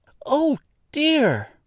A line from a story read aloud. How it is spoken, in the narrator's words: cried Dorothy in dismay